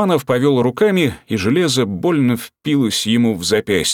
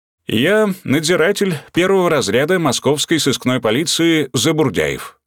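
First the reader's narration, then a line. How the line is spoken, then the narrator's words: Plain. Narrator (Russian): ответил старший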